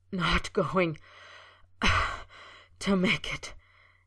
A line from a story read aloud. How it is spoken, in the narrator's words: he gasped, shaking with the dagger-like pain